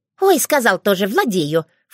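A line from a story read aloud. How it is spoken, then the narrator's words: Snorting. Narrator (Russian): фыркнула Аури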